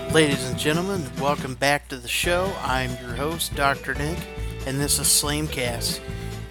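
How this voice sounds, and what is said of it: Hoarse, partly lost voice. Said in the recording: “my voice is still a little bit gone ... I had some serious, upper respiratory, laryngitis”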